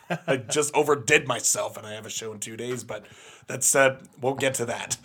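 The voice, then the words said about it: Slightly strained, fading voice. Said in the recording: “I don't know if you can tell, but I'm losing my voice a little bit”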